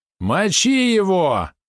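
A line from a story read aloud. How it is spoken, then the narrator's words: Screaming bloody murder. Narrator (Russian): завопил как резанный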